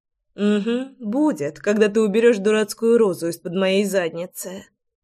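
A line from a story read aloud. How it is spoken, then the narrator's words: Grumbled. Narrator (Russian): проворчала Руслана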